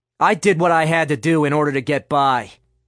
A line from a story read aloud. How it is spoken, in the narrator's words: Nick spat at her